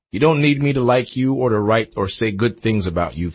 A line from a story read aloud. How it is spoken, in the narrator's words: Feinstein said